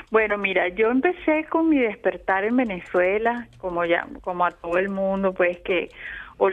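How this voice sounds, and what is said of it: Venezuelan-accented Spanish. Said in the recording (Spanish): “Viví toda mi vida en Venezuela. ... Toda tu vida, por eso el acento”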